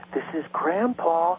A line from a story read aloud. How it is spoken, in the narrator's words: I was right by her ear and I whispered